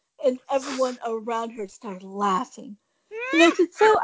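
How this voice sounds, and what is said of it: Usual voice. Nothing is said of it.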